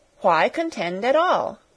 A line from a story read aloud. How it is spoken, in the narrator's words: cried Sarah impatiently